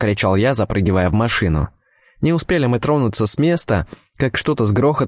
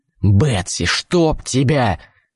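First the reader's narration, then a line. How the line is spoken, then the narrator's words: Wild roar. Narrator (Russian): взревел я дурным голосом, узнав, кому принадлежат когти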